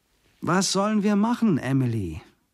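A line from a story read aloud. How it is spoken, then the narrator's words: Calling after someone. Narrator (German): rief hinter ihr her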